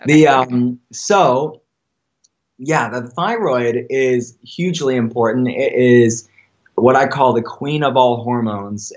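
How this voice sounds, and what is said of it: Hoarse, strained voice. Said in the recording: “I'm sipping some hot water here. I've been talking okay. too much and I'm losing my voice”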